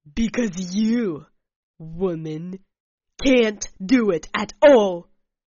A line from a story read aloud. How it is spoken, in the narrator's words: my opponent said through his teeth angrily